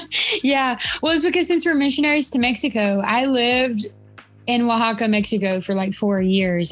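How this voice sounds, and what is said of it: Southern US accent. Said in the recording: “you still have that Southern accent”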